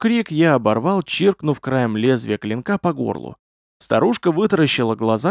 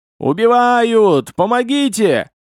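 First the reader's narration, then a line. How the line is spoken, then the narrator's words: Old woman screaming. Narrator (Russian): Божий одуванчик завопила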